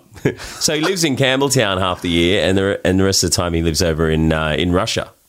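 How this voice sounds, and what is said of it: Australian accent. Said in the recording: “you Australian? I hear the accent”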